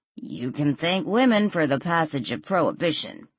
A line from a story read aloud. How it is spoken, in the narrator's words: Adam grumbled